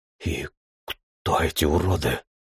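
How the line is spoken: Quiet cursing. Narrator (Russian): Кирилл негромко выругался и сообщил

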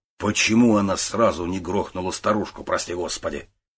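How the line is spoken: Grumbled. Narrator (Russian): пробурчал

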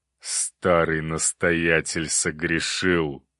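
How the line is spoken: Through gritted teeth. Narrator (Russian): процедил кузнец

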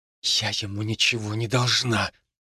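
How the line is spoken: Frightened hiss. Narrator (Russian): прошипела она, почти спрятавшись за моей спиной

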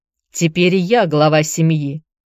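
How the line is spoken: Cold. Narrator (Russian): холодно ответил Филипп

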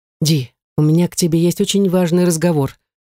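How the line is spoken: Agitated tone. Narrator (Russian): взволнованным тоном сказал мне мужчина

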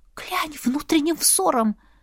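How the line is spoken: Faint, strained whisper. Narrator (Russian): Едва прошептала, так как говорить выходило с трудом

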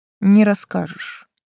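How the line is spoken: Calm. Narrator (Russian): спокойно ответил он

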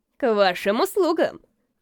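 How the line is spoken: Boy's chuckle. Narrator (Russian): хохотнул мальчишка

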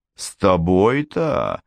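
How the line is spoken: Scoffing snort. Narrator (Russian): хмыкнул Фрелик

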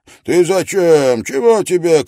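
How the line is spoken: Shouted. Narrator (Russian): крикнул он

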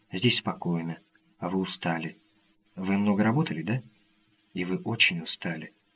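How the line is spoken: Soft. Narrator (Russian): Она мягко сказала

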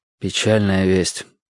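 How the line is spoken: Sigh. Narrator (Russian): вздохнул я

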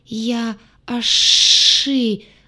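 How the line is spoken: Monster forcing words out. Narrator (Russian): выдавил монстр

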